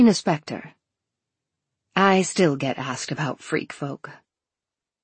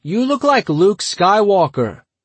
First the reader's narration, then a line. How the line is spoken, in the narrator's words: another guy called out